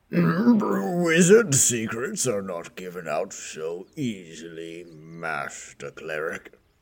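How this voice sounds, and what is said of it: Old man character voice. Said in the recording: “still in his old man form ... does your voice actually change, or are you affecting an accent?”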